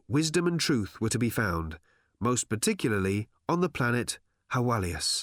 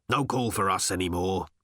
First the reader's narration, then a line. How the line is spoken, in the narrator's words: he said gruffly